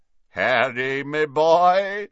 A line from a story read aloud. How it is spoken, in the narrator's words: said a booming voice from behind them